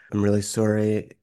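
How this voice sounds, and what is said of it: Quiet, hushed condolence voice. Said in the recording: “you talk in this quiet voice.”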